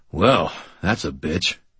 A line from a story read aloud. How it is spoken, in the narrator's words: I grunted